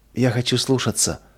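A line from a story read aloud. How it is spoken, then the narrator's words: Tearful whisper. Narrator (Russian): прошептала сквозь слезы Нина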